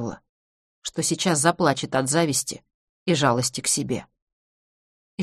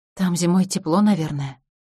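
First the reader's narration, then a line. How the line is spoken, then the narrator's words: Sighed. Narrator (Russian): вздохнула Юль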